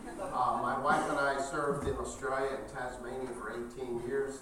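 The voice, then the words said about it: Speaks with an unusual accent. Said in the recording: “I do have the strange accent. I have lived outside the U.S. for 30 years, but the accent has followed me all those years.”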